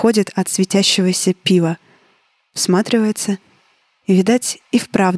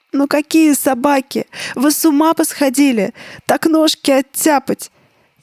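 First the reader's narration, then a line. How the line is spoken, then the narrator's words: Old woman's plaintive bleat. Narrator (Russian): Бабкин голос проблеял жалобно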